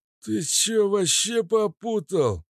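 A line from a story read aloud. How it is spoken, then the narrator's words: Hoarse wheeze. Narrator (Russian): просипел кабачок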